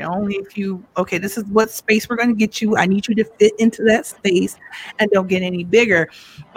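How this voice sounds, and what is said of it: Loud, forceful speaking voice. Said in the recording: “I take up a lot of space from my look to my voice. I'm always afraid I'm yelling ... I'm loud”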